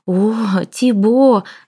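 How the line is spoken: Breathed out. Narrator (Russian): выдохнула, наконец, француженка

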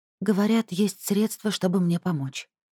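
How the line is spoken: Quiet, tense. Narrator (Russian): тихо и напряженно сказала Нерут

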